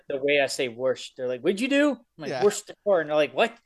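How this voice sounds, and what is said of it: Baltimore accent. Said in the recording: “the one guy's definitely from Baltimore. You can tell just from the accent.”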